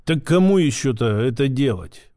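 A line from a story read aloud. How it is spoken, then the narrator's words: Gruff grumble. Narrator (Russian): буркнул детина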